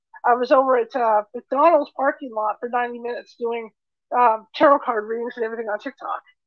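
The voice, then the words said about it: Hoarse, worn-out voice. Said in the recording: “You know, you can hear my voice is kind of gone... it gets to my voice after a while”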